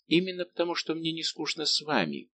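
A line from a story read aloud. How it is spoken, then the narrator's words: Gentle objection. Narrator (Russian): возразила Мэри своим нежным голосом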